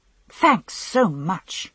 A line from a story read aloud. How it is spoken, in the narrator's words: I snapped